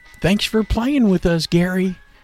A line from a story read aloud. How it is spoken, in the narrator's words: Hoppy called out